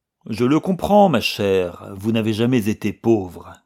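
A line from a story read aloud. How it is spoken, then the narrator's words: Cold reply. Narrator (French): répliqua froidement Sheldon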